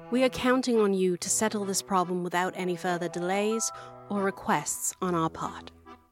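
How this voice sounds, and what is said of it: Put-on British accent. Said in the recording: “I don't know why you're doing a British accent... I'm just so used to doing a British accent for everything”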